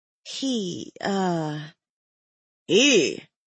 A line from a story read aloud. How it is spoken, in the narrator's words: Cassius chuckled